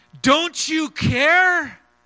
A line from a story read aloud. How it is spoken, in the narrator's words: Peter shouting over the howl of the wind and the roar of the waves